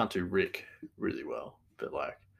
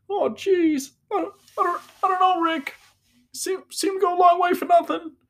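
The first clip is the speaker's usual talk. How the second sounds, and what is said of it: Morty impression from Rick and Morty. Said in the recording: “a really good imitation that people are doing? It's like the Rick and Morty imitation ... That's probably the best Morty I can do.”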